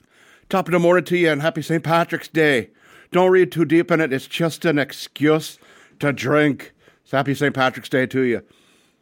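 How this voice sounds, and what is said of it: Put-on Irish accent, poorly done. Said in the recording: “that accent ... hopefully I didn't drive off any people listening in Ireland ... that horrible, horrible thing”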